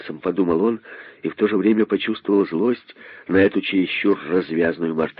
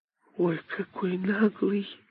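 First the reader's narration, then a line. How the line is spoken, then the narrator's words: Young monkey whispering. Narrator (Russian): прошептала мартышка-дочка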